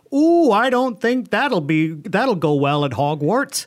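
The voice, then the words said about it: Deliberately bad put-on accent. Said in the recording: “That was not a good accent ... No, that was a horrible accent”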